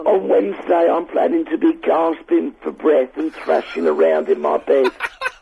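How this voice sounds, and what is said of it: Hoarse, weak voice. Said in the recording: “You sound awful. ... I lost my voice.”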